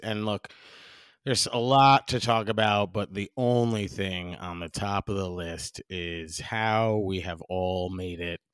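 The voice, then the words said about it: Hoarse, raspy, strained voice. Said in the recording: “losing my voice ... If you can hear in my voice, I am really struggling ... I kind of like the raspiness ... a little Tom Waits action going on”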